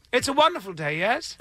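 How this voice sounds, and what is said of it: Put-on posh English accent. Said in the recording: “you can't really tell if I'm speaking in an English accent or I'm just I'm highly educated, like William F. Buckley”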